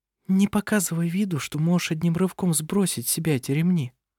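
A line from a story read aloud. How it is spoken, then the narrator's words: Whispered. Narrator (Russian): прошептала она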